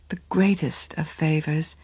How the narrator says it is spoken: she rejoined gently

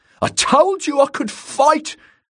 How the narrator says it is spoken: he shouted down

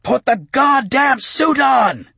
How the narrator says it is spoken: he roared, waking the deeper range of echo

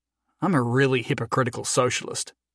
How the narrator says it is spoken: he muttered to himself

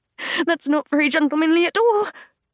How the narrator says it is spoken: I gasp

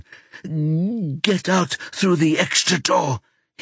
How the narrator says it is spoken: hisses

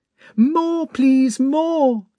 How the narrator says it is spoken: cried Natasha

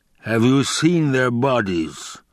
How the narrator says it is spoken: the Baron rumbled

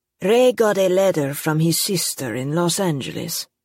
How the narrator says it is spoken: he said in a thick Italian accent

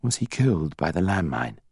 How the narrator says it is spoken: Harry asked quietly

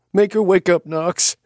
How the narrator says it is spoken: she begged

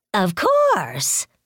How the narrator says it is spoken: Lao Ge said brightly

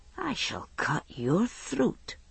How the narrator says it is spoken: he said softly

